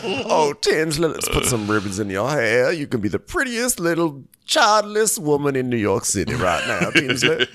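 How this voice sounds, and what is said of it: Impression of Dale. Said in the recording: “do a Dale impersonation. ... I'm doing my Dale all day.”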